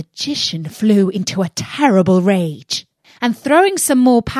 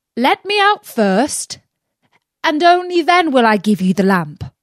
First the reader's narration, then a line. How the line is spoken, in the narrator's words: Aladdin called out